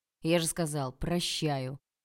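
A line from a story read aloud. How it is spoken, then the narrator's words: Barked. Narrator (Russian): рявкнул Олег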